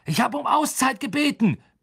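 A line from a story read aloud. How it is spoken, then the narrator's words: Roaring at his team. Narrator (German): brüllte Woods seinem Team entgegen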